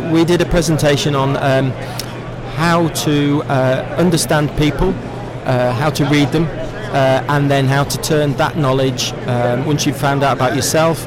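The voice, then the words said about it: Non-American accent. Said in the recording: “the guy with the non-American accent”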